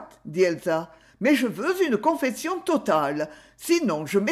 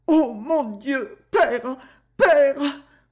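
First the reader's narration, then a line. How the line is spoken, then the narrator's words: Girl stammering into sobs. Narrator (French): balbutia la jeune fille, qui éclata en sanglots convulsifs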